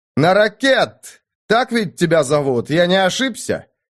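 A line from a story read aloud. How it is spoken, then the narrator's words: Barked shout. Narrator (Russian): гаркнул Кирсан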